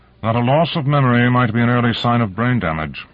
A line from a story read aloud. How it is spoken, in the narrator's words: Konev said coldly